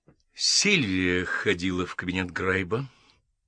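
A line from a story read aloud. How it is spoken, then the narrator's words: Slow speech. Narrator (Russian): медленно сказала миссис Бейсон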